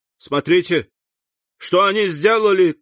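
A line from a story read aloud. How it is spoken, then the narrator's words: Shout. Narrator (Russian): крикнул Морель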